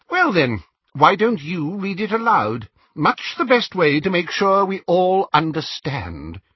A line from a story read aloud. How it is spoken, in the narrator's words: inquired Xenophilius sharply